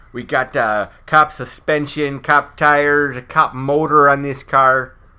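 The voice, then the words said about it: Over-the-top Chicago accent. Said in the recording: “His accent is so over the top. It's so lovingly. ... I won't do everything like in that accent.”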